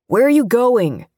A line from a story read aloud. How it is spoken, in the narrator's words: Jay called out